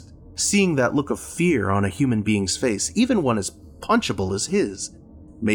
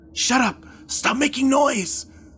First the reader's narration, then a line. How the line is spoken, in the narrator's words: Liam whispered angrily